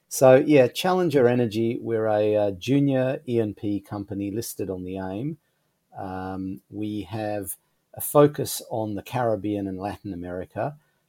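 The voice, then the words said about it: Australian accent. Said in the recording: “I have the Australian accent”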